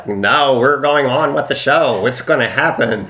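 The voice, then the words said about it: Imitates another person's voice. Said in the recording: “I like the impersonation.”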